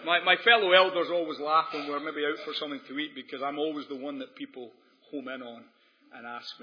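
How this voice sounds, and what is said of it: Scottish accent. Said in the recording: “a Scottish accent ... he's got more of an American accent than me”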